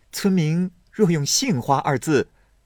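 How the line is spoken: Sneering. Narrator (Chinese): 宝玉冷笑道

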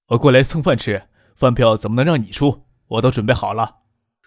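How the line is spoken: Laughing. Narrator (Chinese): 傅俊笑着说

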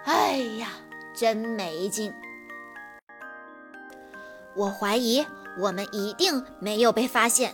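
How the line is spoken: Sighing voices in unison. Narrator (Chinese): 汽车人齐声叹了口气

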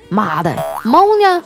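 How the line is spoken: Drunken, brash. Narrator (Chinese): 喝了二锅头的呀，说

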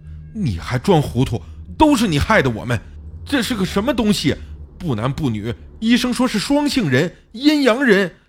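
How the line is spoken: Angrier tone. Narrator (Chinese): 小李的语气更加的愤怒

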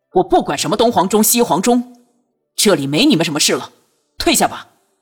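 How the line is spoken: Sharp, stern. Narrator (Chinese): 朱瑜厉声道

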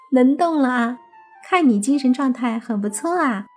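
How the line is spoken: Cheerful, grinning. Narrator (Chinese): 伊美 也是笑嘻嘻的说道

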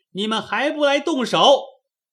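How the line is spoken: Wild clamoring. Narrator (Chinese): 明烟乱嚷

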